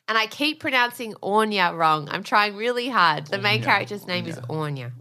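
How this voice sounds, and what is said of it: Australian accent. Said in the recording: “it's hard with an Australian accent”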